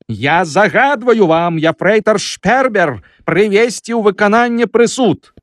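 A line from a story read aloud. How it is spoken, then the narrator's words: Roaring. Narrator (Belarusian): зароў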